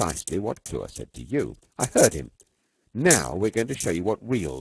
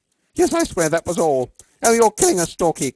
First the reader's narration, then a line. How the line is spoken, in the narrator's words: cried Campbell